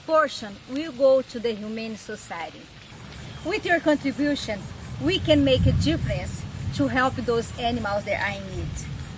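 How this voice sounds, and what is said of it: Speaker with a noticeable accent. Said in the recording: “She has a great accent.”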